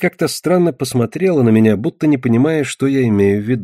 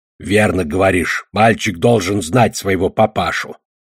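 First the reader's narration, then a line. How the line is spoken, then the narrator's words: Creaky voice. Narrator (Russian): проскрипел Одноглазый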